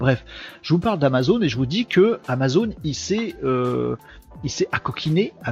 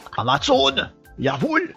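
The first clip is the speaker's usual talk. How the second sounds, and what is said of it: Put-on German accent. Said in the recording (French): “Pourquoi pourquoi cet accent allemand ... Pourquoi je fais un accent allemand”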